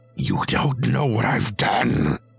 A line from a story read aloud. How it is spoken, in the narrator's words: Humboldt said with a growl